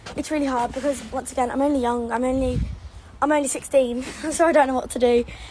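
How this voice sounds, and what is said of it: Cute British-sounding accent. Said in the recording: “Oh my gosh, her accent. ... Her accent. ... one from the UK and one from the US ... she reminds me of that. She's got such a cute little accent.”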